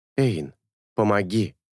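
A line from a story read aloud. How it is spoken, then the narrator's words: Pleading. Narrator (Russian): взмолился он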